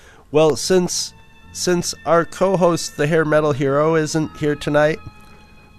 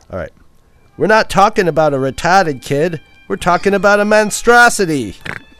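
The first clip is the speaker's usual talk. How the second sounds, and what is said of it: Poor put-on Boston accent. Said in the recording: “read in a Boston accent ... Butchered that Boston accent, but I'm trying.”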